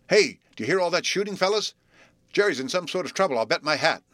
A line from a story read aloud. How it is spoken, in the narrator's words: shouted excitedly